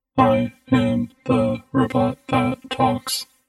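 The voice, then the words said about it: Booming mechanical robot voice, flat intonation. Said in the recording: “a mechanically timbered voice boomed out in words that lacked accent and intonation”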